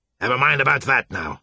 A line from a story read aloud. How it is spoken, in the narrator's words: Marsh said gruffly, embarrassed by Joshua's gratitude